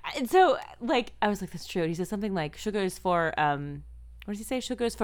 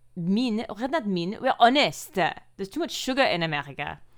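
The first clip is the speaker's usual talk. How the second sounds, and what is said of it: Put-on French accent, somewhat Russian-sounding. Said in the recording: “my English with a French accent ... That's kind of Russian French.”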